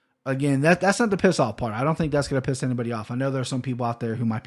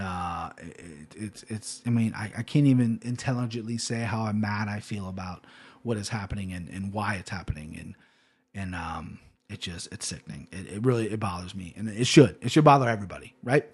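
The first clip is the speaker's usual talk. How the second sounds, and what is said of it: Serious voice. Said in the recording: “my serious voice ... Serious voice”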